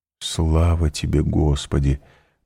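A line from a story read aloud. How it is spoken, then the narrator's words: Whisper. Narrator (Russian): прошептал он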